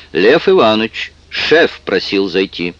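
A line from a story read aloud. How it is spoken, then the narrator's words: Loud. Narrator (Russian): секретарь громко сказала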